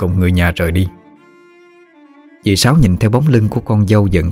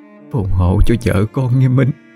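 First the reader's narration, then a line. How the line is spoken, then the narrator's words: Sobbing aunt. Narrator (Vietnamese): Dì ôm chặt đôi hũ tro cốt trong tay mà lại nức nở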